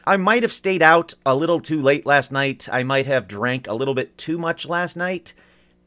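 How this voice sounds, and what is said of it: Slightly hoarse, hungover voice. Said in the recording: “I don't know if you can tell from my voice... I am a little hungover, a little hoarse”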